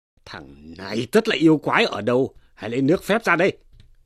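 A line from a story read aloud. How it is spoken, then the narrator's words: Angry shout. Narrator (Vietnamese): Tri phủ lại quát rằng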